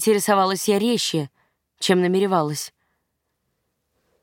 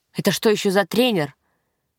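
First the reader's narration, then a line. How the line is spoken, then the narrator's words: Barked angrily. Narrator (Russian): рявкнул он, уловив мой сарказм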